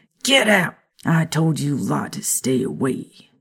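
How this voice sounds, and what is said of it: Grumpy old American man voice. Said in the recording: “You sound like you're about to be like, "Hey, you kids, get off my lawn." ... Americanized ... aged 20 years and got grumpier and turned into a get off of my lawn kind of guy”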